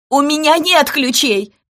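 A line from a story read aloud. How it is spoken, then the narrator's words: Shout. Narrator (Russian): крикнула Лаленкова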